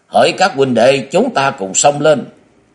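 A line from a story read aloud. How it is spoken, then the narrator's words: Loud rallying shout. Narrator (Vietnamese): Lão gào to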